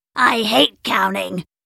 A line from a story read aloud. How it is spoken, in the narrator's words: Goop grumbled